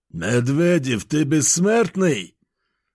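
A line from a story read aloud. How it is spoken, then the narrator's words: Growled. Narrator (Russian): рыкнул один из них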